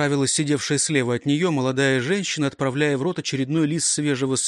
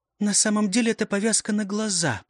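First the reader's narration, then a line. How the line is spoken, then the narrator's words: Secretive whisper. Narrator (Russian): прошептала, потому что обсуждать такое не полагалось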